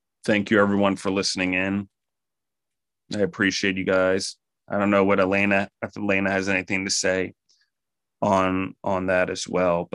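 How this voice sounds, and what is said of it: Hoarse, fading voice. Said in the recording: “as I'm losing my voice here”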